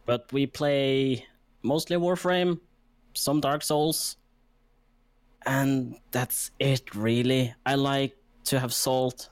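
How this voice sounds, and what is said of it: Norwegian-accented English. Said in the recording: “a Norwegian guy who screams in a terrible English accent, like this terrible fucking accent”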